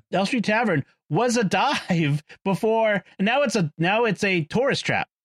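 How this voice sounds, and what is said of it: Strong Boston accent. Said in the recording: “I usually don't let my Boston accent go all over the place, but here it comes.”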